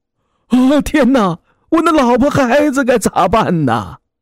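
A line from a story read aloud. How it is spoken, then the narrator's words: Desperate wailing. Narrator (Chinese): 他正呼天抢地的哭喊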